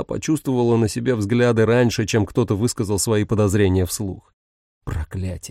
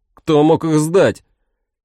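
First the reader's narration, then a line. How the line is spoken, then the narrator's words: Someone shouting out. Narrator (Russian): кто-то выкрикнул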